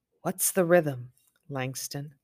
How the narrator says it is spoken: her father say softly

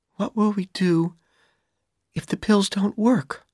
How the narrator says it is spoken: Dorothy asked him nervously

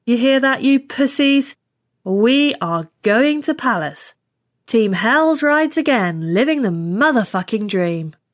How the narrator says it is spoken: Hicks ... said loudly

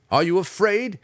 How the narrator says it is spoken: Drizzt yelled into the gloom

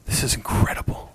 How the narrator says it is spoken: she whispered

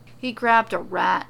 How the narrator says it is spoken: Keith sighs

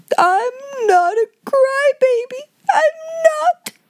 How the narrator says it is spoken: wailed Lottie

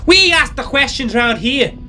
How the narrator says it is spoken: Tom with anger and shouted

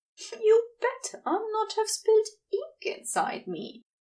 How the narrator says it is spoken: Xerophil said after a pause, offering a chuckle

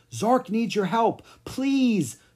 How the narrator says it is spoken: the prince cried

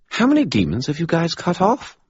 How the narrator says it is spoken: Bob asked brightly

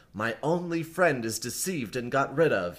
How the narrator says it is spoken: he said

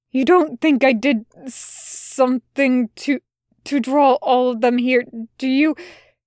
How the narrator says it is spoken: He asked, and there was a hint of a stammer in his voice

